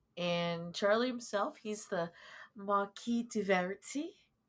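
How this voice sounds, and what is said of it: Fancy put-on English accent. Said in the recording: “I don't know why I said that with an English accent. ... Because it's fancy.”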